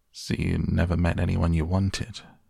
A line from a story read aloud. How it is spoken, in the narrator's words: he asked in a serious tone